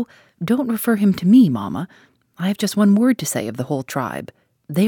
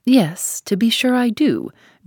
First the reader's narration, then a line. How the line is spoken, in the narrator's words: drawled Lord Ingram